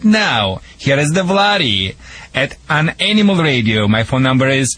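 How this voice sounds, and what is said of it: Russian-accented English. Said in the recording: “I call it Rushlish. Sorry, people, for my accent. ... Americans think that's the Michigan accent. ... it's a doglish accent. It's a doggy accent”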